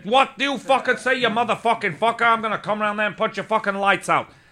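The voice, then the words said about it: Italian New York accent. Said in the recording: “Did he do it in a kind of Italian New York accent ... That's exactly how he talks.”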